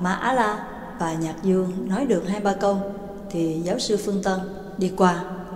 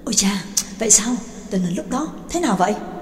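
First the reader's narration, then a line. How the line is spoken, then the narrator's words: Eager hurried question. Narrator (Vietnamese): Hai mắt Nhạc Dương sáng lên, vội rối rít hỏi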